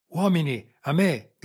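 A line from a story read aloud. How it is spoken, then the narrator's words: Colonel shouting. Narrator (Italian): gridò il colonnello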